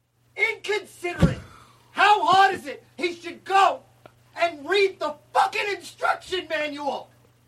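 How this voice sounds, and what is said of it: Angry yelling. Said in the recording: “You're yelling at me. ... Why are you yelling at me like it's my fault? ... because I'm mad”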